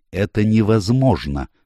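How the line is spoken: Exclamation. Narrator (Russian): воскликнул он

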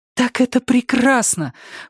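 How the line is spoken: Exclaiming. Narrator (Russian): воскликнула Джулия

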